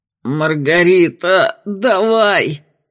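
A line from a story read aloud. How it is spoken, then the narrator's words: Pained hiss. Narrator (Russian): Морщась от боли, прошипел псих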